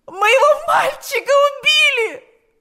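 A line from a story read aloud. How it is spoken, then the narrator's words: Anguished mother screaming. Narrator (Russian): закричала несчастная мать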